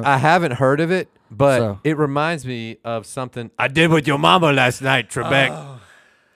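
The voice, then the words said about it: A poor impression. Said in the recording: “terrible impression”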